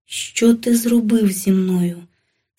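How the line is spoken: Exhausted, weak voice. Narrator (Ukrainian): спитала я знесиленим голосом

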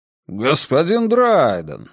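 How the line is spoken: Exaggerated surprised exclamation. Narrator (Russian): воскликнул Колм с преувеличенным удивлением

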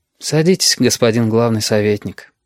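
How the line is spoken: Half-sighed speech. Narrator (Russian): не то сказал, не то вздохнул Галька

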